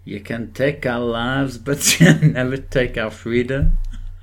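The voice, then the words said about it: Unconvincing put-on Scottish accent. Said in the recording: “Do you do a Scottish accent? ... Yeah, you're right. It is French.”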